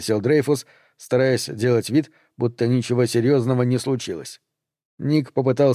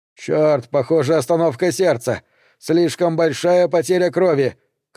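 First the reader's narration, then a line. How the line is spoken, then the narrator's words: Urgent shout. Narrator (Russian): крикнул Дрейфус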